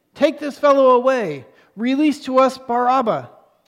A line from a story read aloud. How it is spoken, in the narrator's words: they shouted all together, saying